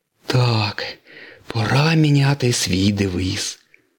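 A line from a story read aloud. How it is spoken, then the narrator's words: Breathless gasping wheeze. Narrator (Ukrainian): прохрипів сирник хапаючи ротом повітря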